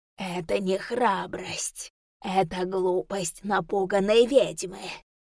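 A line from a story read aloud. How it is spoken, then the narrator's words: Echoing inhuman voice. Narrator (Russian): Эхом прогудел в голове нечеловеческий голос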